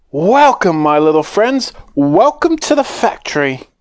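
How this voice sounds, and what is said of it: High, fluty Willy Wonka voice. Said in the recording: “His voice was high and fluty.”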